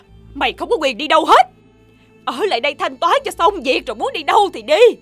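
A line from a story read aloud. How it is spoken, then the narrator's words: Shouting. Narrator (Vietnamese): dì Tuyết ... hét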